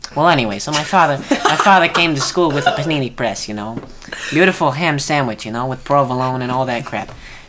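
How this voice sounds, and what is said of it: Wise guy character voice. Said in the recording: “put on my wise guy voice”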